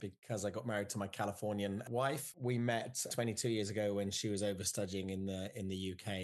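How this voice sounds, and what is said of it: English accent. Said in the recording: “You have a very cool accent ... So I'm English, and I still am British ... I grew up in the UK, just outside of London”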